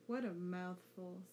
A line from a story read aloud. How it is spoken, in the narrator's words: Sasuke groaned